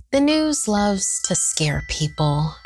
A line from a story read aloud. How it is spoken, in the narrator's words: she said